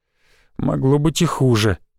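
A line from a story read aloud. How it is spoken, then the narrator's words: Mumbling. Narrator (Russian): пробормотал Михаил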